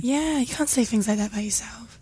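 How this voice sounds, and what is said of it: Whispering. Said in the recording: “Why are you whispering? ... I've got bad throat.”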